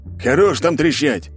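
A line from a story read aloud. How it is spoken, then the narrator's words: Barked right in ear. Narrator (Russian): рявкнул мне прямо на ухо мужик, что встал в очередь за мной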